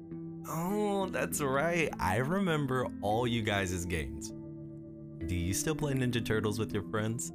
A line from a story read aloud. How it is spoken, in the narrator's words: laughed a little